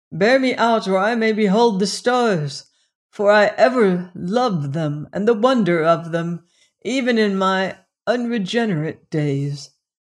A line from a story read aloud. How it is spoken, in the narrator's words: said Sir Richard suddenly, his voice strong